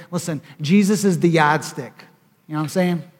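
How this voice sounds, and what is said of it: Put-on Boston accent. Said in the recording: “I'm working on my Boston accent.”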